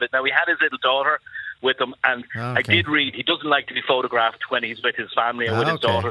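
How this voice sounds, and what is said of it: Irish Dublin accent. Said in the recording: “you sound like you're from Ireland... I'm from Dublin”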